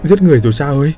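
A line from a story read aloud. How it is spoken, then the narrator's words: Breathless panting. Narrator (Vietnamese): Hắn thở hổn hển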